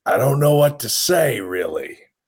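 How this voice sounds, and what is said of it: Imitates another person's voice. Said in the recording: “That's my Al Pacino impersonation. ... That's not bad.”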